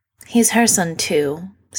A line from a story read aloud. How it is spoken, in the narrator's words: Sydney sighs